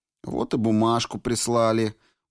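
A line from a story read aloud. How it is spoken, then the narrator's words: Gruff grumble. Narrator (Russian): буркнул Яков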